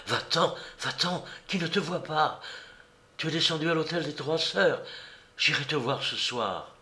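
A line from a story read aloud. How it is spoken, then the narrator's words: Breathless. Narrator (French): Elle lui dit haletante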